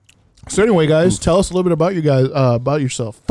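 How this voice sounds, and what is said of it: Slurred, tipsy speech. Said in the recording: “I'm slurring already... These goddamn mimosas.”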